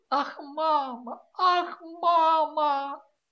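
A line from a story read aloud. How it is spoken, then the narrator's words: Daughter repeating through tears. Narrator (Russian): А дочь все твердила сквозь слезы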